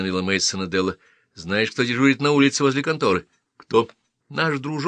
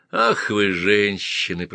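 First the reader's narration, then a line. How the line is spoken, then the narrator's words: Groaning. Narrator (Russian): простонал Мейсон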